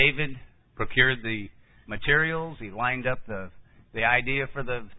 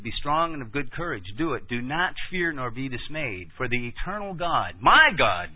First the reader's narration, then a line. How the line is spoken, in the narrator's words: David said